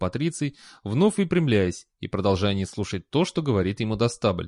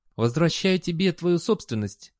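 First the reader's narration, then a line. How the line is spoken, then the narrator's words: Sweet voice. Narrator (Russian): сладким голосом промолвил он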